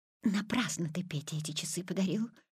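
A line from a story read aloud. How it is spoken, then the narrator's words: Whispering mother. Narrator (Russian): шепотом сказала мама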